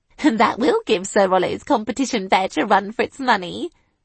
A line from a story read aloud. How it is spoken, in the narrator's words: I giggled